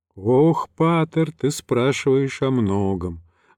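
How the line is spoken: Sighing. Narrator (Russian): вздохнул отец Харалампий

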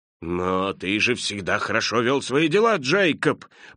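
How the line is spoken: Uneasy mumble. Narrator (Russian): пробормотал Скрудж, который уже начал применять его слова к себе

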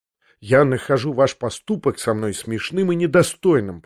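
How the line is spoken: Indignant mutter. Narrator (Russian): пробормотал я в негодовании

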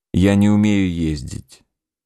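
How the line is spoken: Cold. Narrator (Russian): холодно сказал Адуев

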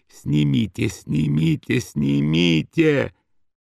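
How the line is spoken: Wheezing pained moan. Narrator (Russian): Сипя и корчась, простонал

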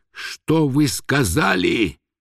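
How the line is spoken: Hissing question. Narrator (Russian): шипящим голосом спросил Турбин

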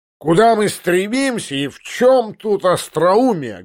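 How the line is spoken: Loud shout. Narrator (Russian): громко прокричал поручик

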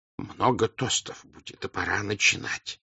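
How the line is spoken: Whisper. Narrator (Russian): шепнул он

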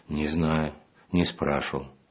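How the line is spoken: Quiet reply. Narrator (Russian): ответила я также тихо

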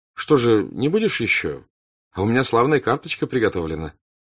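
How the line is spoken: Indifferent voice. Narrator (Russian): он равнодушным голосом сказал

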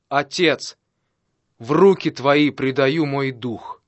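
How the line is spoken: Loud exclamation. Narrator (Russian): Иисус громким голосом воскликнул

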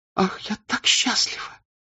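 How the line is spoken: Happy, through tears. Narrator (Russian): отвечала она, улыбнулась сквозь слезы

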